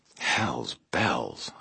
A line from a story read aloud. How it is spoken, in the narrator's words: I muttered